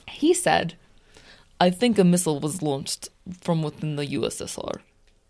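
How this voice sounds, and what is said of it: Put-on accent. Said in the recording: “Sorry, where is your accent?”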